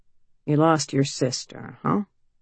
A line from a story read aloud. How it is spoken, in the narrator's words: Tom says gently